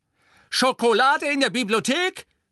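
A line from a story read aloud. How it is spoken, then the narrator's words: Shouted. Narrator (German): schrie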